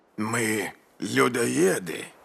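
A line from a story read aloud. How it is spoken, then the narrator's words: Hoarse, creaky voice. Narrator (Russian): спросил он хриплым, скрипучим голосом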